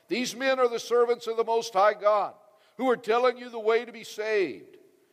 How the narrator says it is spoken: She shouting

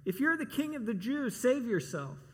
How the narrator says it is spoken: They called out to him

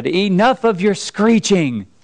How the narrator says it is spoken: he shouted

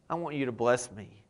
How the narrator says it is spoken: he said

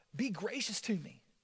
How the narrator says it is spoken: he begged God, he asked God

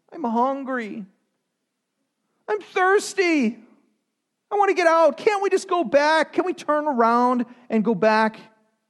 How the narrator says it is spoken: They're whining

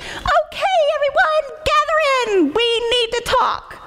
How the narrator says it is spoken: Itsy cupped his hands over his mouth and squeaked

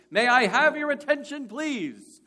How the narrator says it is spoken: this man who had just come in announced in a very loud voice

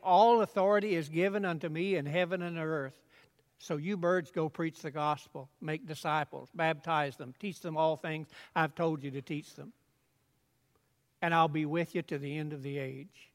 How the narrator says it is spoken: said

